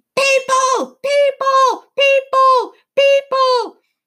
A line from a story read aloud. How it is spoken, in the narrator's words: they were screaming